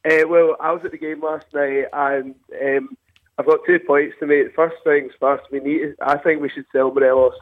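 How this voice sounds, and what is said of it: Husky, hoarse voice. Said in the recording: “Excuse my voice. ... I might sound a bit husky.”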